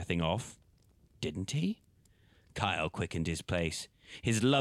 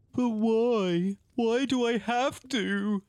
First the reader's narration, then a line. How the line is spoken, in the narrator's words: croaked a pained voice through sniffs and sobs